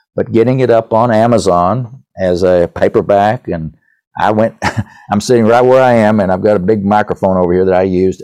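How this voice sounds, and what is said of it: East Tennessee accent. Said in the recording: “an East Tennessee accent”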